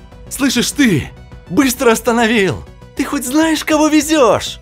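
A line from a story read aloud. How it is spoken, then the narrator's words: Screamed at top of lungs. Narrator (Russian): Во все горло заорала Инга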